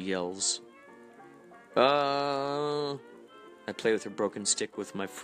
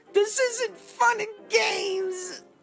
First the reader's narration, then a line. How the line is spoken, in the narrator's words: she yells